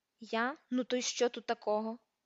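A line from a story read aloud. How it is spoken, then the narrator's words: Grumbled. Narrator (Ukrainian): буркнув Гаррі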